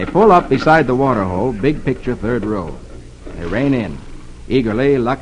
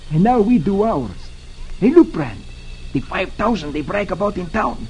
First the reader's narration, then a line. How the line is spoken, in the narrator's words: Concho exclaims